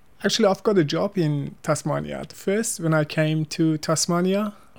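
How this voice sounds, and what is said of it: Non-native English accent. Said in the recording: “It's my bad accent.”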